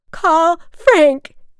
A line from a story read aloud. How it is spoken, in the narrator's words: she shrieked